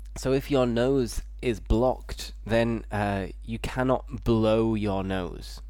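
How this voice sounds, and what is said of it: Blocked-nose, cold-like voice. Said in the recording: “my voice sounds a little bit different because it's similar to having a cold. And my nose is a little bit blocked.”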